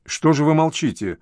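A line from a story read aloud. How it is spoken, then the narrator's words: Plain. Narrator (Russian): спросил Филомер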